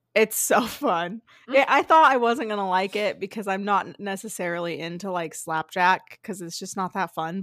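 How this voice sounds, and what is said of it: Tired, strained voice. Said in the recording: “my voice is tired because I was just screaming that whole fucking game”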